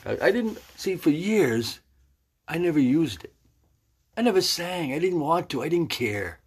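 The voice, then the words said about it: Raspy, weak voice. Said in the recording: “my voice isn't very good. It's not very good anyway right now ... my vocal cords, they're kind of raspy.”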